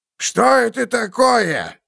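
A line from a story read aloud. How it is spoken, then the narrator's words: Barked. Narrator (Russian): рявкнул Ульфрам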